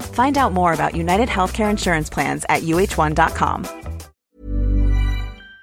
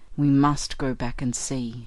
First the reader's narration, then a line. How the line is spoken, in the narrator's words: said Shorthouse briefly in a low tone